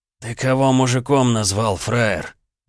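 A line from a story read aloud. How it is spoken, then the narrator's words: Menacing hiss. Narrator (Russian): прошипел рыжий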